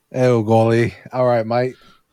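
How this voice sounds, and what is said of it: Put-on Australian-sounding accent. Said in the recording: “That's fucking Australian. Whatever. I do Australian a little bit.”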